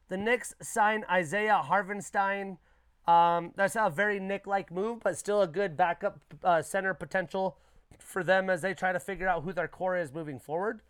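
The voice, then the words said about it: Fading, strained voice. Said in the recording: “My voice is fading on me, guys.”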